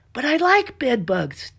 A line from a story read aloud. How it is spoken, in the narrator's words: Della shouted